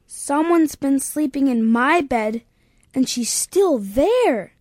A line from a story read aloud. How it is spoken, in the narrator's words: exclaimed Baby Bear